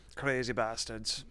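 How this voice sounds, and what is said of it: Poorly done put-on accent. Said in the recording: “What accent was that? ... I'm not good at accents.”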